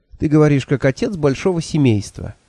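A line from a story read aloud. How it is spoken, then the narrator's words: Sudden laugh. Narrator (Russian): неожиданно рассмеялся он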